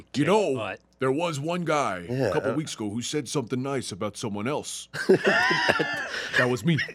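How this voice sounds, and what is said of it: Imitates another person's voice. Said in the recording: “That was a Scott imitation.”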